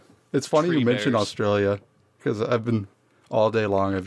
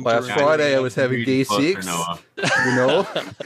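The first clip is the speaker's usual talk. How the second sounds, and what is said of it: Attempted Australian accent, drifting Minnesotan. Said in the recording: “I've just been practicing my Australian accent ... Now you just got a Minnesotan”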